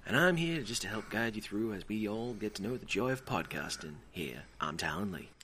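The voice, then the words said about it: Gentle voice drifting into Southern drawl. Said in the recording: “Is that Southern? ... trying to do a gentle voice, nice person ... I wasn't really trying to be Bob Ross proper ... You got more and more Southern ... Started drawling a bit.”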